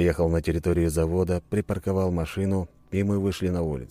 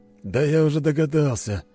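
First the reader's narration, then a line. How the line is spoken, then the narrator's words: Heavy sigh. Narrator (Russian): тяжело вздохнул Борис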